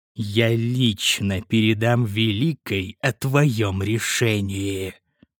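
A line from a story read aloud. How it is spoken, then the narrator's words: Hissed in fury. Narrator (Russian): Прошипел главный инквизитор, и лицо его исказилось от ярости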